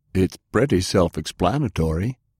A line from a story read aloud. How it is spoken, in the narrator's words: Garrett exclaimed